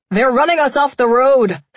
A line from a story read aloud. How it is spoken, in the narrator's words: Smithy yelled